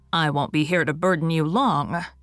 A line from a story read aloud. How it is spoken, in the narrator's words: would tell with a groan